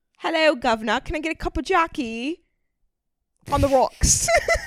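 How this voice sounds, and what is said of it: Put-on British accent. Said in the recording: “impersonating a British person”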